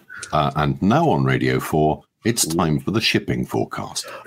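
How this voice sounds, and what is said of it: British radio announcer voice. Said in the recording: “announcer voice”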